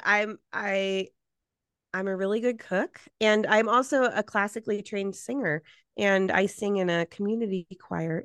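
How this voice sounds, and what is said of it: Slightly hoarse, froggy voice. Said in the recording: “my voice is a little froggy”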